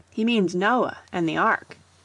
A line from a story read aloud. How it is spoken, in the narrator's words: exclaimed Budge